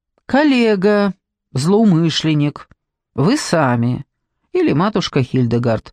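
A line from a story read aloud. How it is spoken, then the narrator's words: Calm listing. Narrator (Russian): спокойно перечислил Торн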